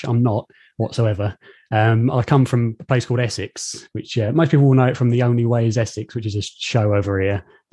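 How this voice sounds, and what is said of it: British English accent. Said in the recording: “I'm in the UK, as most people probably can tell from the accent. Everyone thinks I sound posh.”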